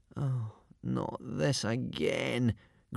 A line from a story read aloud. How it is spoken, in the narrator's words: groaned Hiccup and Fishlegs to themselves